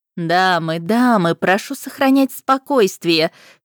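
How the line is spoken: Laughing exclamation. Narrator (Russian): смеясь, воскликнула Пашт

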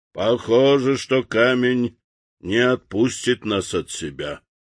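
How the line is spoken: Gloomy sailor's voice. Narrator (Russian): помрачневшим голосом сказал моряк

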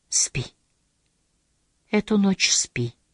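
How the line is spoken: Gentle whisper. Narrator (Russian): ласково прошептал в ответ Тамакити

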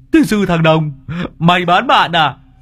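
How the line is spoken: Howling shriek. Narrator (Vietnamese): Lâm Sẹo rú lên

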